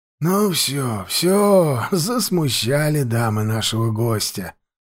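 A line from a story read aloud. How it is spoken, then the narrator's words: Grumbling. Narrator (Russian): проворчал хозяин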